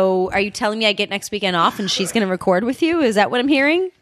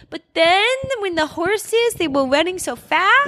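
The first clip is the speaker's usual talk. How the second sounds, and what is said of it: Imitates a four-year-old child's voice. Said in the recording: “She's only four ... can we do an imitation? So I'll be Brooklyn.”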